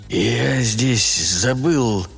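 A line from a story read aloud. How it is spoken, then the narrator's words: Mutter. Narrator (Russian): пробормотал он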